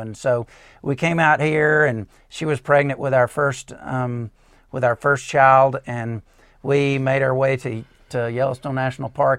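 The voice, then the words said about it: Alabama Southern accent. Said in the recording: “I couldn't tell by your accent that you're from Alabama”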